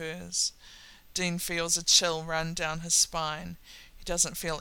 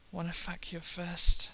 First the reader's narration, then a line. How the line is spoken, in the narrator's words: Sam groans